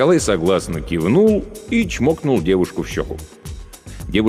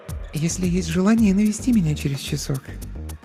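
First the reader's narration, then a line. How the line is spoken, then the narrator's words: Whispered. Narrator (Russian): прошептала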